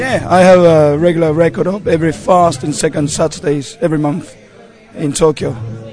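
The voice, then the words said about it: London-style English accent. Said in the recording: “it doesn't sound Japanese at all. The typical Japanese accent, English accent... You've got this sort of London sort of ... this dodgy accent ... You have got a very good English accent.”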